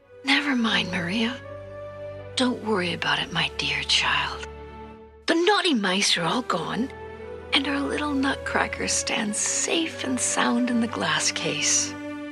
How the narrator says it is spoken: very softly she said to Maria

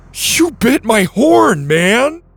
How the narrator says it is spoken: The Triceratops stared up in horror and shouted

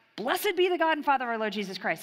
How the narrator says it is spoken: He's blurting out

